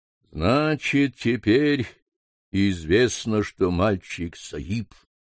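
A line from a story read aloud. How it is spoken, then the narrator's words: Muffled, hollow voice. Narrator (Russian): продолжал лама глухим голосом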